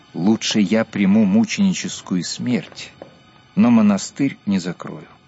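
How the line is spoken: Calm explanation. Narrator (Russian): Остолбеневшим посетителям он спокойно пояснил

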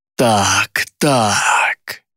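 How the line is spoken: Strange, altered voice. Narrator (Russian): заговорила она чужим голосом

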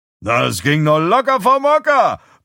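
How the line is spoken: Bellowing. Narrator (German): brüllt Galen

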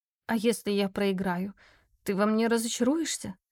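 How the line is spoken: Strained, choked-up. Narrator (Russian): с трудом выдавила я и сглотнула возникший в горле ком

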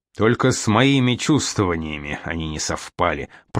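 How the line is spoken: Mumbling. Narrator (Russian): пробурчал тот

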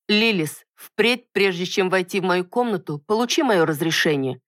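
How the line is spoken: Clipped, irritated and angry. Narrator (Russian): чеканя каждое слово произнесла, резко почувствовав раздражение и злость

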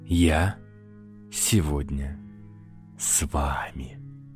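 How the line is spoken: Insinuating slow hiss. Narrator (Russian): вкрадчиво и медленно прошипел Матушкин

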